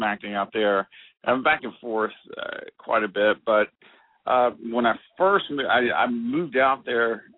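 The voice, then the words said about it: Strong country accent. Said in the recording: “I thought I neutralized my accent, but everyone was just like, you're the countryest person I've ever heard... the real country boy comes out.”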